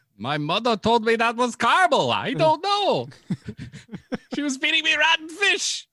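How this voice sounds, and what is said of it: Put-on Icelandic accent. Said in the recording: “Your Icelandic accent is amazing. You sound just like Bjork.”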